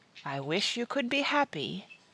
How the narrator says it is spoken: the Green Witch said softly

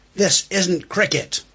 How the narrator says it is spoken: John Vaughan ... shouts

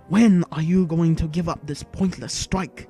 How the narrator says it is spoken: he snapped at the governor, to emphasize his displeasure

